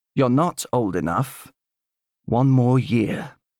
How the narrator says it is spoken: said gently

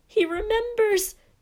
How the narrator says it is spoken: cried Dedalus Diggle

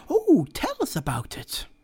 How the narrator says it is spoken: Several women exclaimed at once

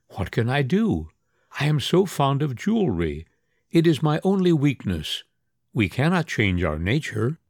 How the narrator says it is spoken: she would smile sweetly and say

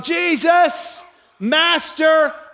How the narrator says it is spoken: they yell

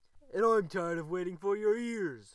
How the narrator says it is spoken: howled the wolf

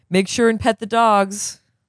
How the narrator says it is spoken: The man called out after

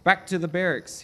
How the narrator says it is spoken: he said sternly

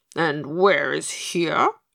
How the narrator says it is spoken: grumbled Pigasus, following pompously, more from too much plum cake than from a desire to be disagreeable

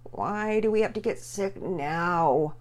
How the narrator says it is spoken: Pearson moaned

